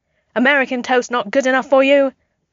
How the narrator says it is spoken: Steve yelled back

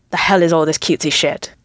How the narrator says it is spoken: He growls

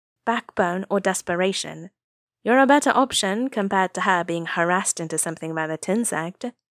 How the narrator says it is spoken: Nia Huaisang said dryly

